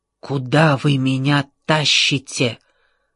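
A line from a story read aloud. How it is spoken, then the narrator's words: Whisper. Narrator (Russian): прошептал космос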